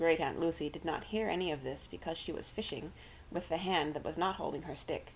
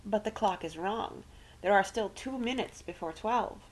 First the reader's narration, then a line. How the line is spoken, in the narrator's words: instantly exclaimed